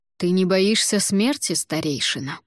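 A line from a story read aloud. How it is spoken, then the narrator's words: Very calm. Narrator (Russian): Он говорил очень спокойно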